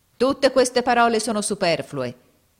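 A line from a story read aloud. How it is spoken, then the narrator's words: Shouting. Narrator (Italian): gridò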